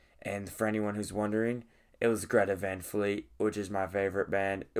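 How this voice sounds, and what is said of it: Tired, partly lost hoarse voice. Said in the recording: “I'm like super tired from that, and my voice is kind of like gone a little bit”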